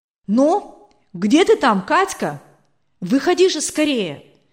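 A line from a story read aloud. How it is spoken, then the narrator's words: Impatient shouting. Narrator (Russian): кричал от нетерпения Николай Васильевич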